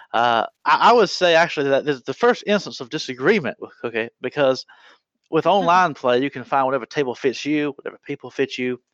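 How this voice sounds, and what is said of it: Exaggerated Southern US accent. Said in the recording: “I'll put on my most southern of accents”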